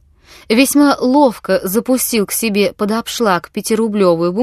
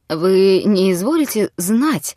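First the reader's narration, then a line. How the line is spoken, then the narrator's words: Weak trembling voice. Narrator (Russian): начал он расслабленным и дрожащим голосом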